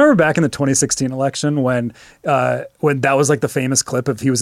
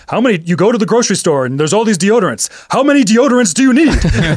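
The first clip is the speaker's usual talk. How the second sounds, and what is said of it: Imitates another person's voice. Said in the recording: “That's a pretty good Bernie impression.”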